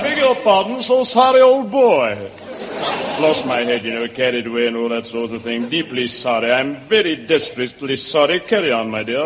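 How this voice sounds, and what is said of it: Convincing put-on English accent. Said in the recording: “that's a wonderful English accent, especially good for a boy who was born and raised right here in New York.”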